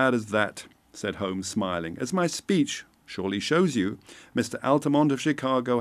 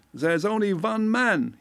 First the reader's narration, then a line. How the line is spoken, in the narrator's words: he cried